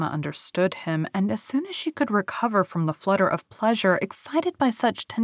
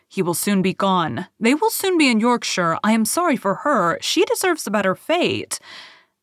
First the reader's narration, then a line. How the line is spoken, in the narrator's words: in a louder, steadier tone, he concluded with